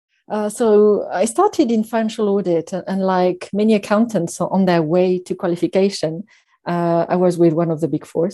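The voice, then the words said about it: Slight French accent. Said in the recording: “a slight hint of a French accent ... never quite lost the accent”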